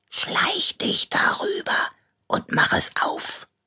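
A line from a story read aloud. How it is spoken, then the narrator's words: Whispered. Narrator (German): flüsterte er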